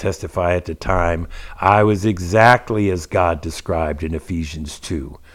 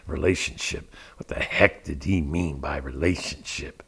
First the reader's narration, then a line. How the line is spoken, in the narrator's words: mumbling to myself